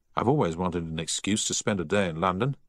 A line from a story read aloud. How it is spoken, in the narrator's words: said Giles